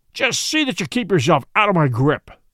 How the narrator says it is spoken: snarled

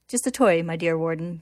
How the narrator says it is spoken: Kimberly says

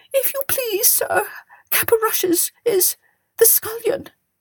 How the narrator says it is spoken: whimpered the cook

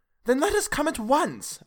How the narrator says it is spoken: I cried

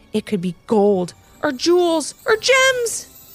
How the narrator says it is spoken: exclaimed Ivy

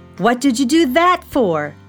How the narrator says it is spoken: shouted Felix

